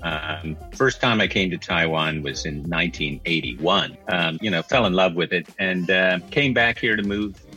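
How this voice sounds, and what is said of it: American English accent. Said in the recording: “in case if you can't tell from ... accent, ... from America.”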